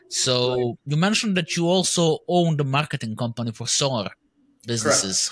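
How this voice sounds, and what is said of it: Serbian-accented English. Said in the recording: “my first language is Serbian ... English is not my first language, simply because accent”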